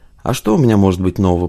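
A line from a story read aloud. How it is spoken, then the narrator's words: Grumbled. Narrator (Russian): пробурчал Багаев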